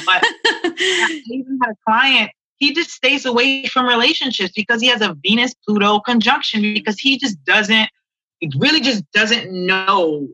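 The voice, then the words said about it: French accent. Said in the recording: “my French accent is coming out”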